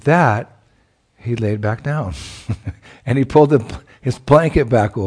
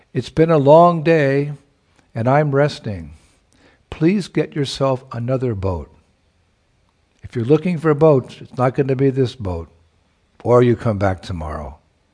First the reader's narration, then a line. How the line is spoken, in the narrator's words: he called out